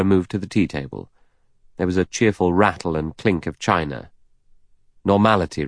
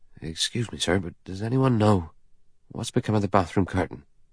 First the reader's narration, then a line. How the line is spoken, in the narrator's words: He said nervously and at random